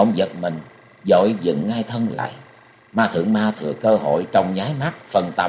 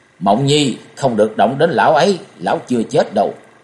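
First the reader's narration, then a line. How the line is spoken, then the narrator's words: Loud roar. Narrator (Vietnamese): Hàng Mai Cốc Chủ gầm lớn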